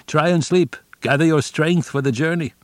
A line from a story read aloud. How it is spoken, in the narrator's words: Someone shouted